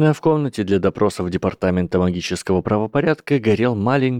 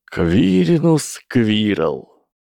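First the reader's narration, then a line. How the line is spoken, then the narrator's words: Drawl. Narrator (Russian): протянул человек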